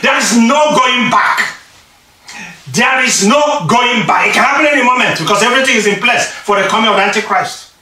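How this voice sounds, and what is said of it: Shouting preacher. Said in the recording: “I'm shouting here now”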